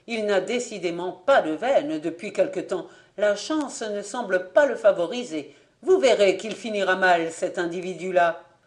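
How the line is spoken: Exclamation. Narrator (French): s'écria Fabien

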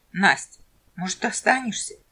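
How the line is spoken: Hesitant suggestion. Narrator (Russian): неуверенно предложил Куропяткин

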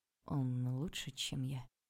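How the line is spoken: Lifeless voice. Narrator (Russian): безжизненным голосом спросил Андрей

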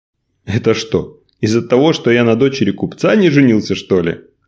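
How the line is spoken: Laughing. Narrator (Russian): рассмеялся Николай

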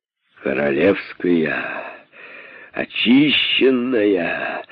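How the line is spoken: Drunken exhaled words. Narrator (Russian): наконец выдохнул пьянчуга

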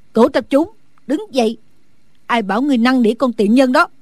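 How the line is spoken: Loud angry shout. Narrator (Vietnamese): Phương Cô lớn tiếng quát

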